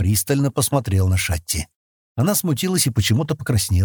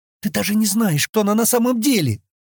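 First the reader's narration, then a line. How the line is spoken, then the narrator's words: Exclaiming. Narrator (Russian): воскликнула Шатти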